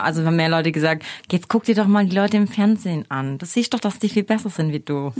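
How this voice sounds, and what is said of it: Swabian German accent. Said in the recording (German): “Was ist denn das für ein geiles Sprech, was du da hast? ... Schwäbisch.”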